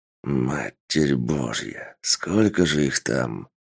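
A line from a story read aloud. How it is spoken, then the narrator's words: Muttered, commander. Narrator (Russian): пробормотал командир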